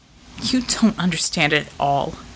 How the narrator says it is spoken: he muttered

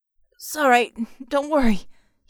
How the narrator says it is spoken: he panted

